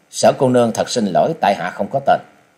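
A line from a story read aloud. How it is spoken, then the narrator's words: Cold speech. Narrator (Vietnamese): chàng lạnh lùng nói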